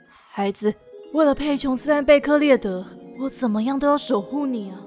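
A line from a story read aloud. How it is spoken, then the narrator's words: Soft voice. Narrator (Chinese): 魔法师轻声说了一句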